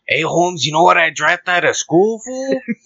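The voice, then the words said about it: Put-on Mexican LA accent. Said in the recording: “Mexican accent ... ese vato loco from LA, the West Side ... that was good. That was good.”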